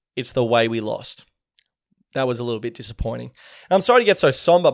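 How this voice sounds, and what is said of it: Strained voice, sounds near tears. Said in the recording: “My voice is starting to go. It kind of sounds like I'm about to cry”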